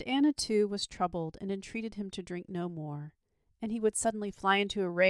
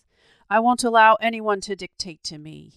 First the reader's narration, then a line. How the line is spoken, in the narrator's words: he would shout